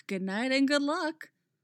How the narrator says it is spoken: Zatanna sighs

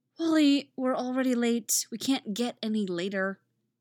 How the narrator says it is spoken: Zatanna sighs

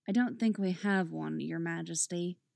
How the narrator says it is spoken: Dinah says flatly

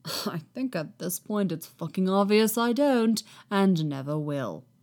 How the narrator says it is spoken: Kenobi mutters, but he sounds suspicious

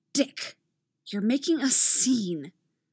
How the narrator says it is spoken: a new voice hisses from the side

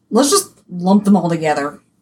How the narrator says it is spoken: Odysseus muttered to Nestor

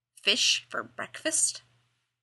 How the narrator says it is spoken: Dean muttered

